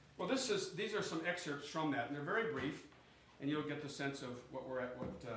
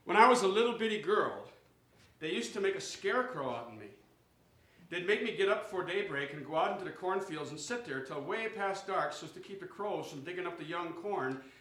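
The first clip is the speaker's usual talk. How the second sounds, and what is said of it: Reading aloud in regional dialect. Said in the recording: “these are written in dialect, so bear with me on that”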